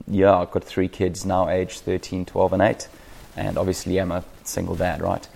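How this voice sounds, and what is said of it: South African accent. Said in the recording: “for those who understand accents, I'm a South African”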